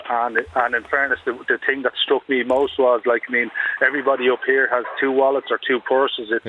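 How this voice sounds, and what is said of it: Dublin Irish accent. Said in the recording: “I'm sure you can gather by my accent. I'm a Dublin lad.”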